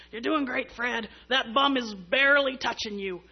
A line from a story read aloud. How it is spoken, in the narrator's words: he said in his, you know, raspy little voice